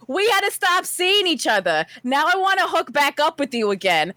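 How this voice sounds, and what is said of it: Put-on accent reading aloud. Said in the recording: “let me just do it in an accent.”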